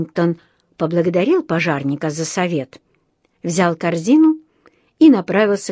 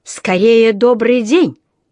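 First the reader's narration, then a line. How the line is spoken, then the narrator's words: Barked. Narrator (Russian): рявкнул сэр Арчибальд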